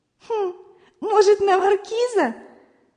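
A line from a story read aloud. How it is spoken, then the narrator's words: Bursting laughter. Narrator (Russian): Зося даже расхохоталась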